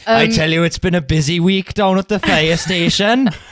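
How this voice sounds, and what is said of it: Welsh voice as Fireman Sam. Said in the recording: “That is actually a lot better than it was when you tried to do your Welsh voice last week.”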